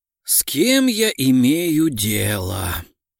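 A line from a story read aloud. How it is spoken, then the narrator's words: Sighing. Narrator (Russian): Вздохнула Мария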